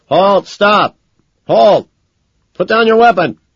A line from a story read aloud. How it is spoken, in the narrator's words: Over a loudspeaker, a cop shouts uselessly